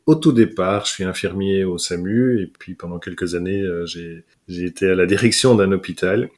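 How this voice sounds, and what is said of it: Belgian French accent. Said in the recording (French): “je suis belge, hein... L'accent ne trompe pas... l'accent effectivement ne ment pas”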